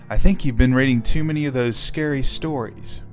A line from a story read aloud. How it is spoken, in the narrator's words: said with an exasperated sigh